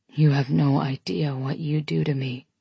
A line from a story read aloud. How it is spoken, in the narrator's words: he whispers against my throat